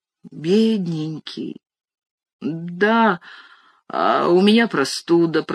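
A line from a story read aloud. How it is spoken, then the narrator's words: Groaning. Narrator (Russian): простонал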